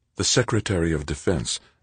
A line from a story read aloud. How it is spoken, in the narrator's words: Angelique explained, leaning close enough to Stoner to whisper in his ear